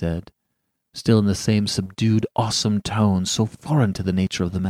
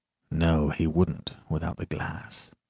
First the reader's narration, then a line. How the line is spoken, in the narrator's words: he murmured